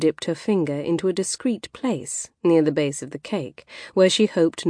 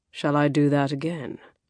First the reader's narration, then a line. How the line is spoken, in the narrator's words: he offered in a husky tone